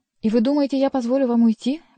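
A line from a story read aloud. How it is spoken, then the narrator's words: Exclaimed. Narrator (Russian): воскликнул он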